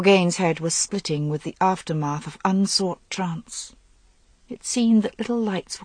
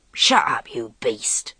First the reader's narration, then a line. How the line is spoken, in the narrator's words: hissed Calla